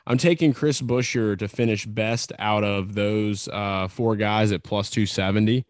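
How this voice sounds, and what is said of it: Heavy regional accent. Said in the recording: “the ... voice accent's coming out heavy”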